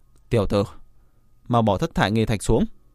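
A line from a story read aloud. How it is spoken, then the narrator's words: Angry speech. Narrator (Vietnamese): Cuồng Đao Quỷ Tôn tức giận nói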